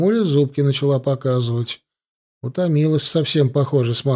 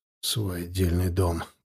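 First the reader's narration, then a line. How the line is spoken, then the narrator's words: Grumbling. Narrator (Russian): проворчал я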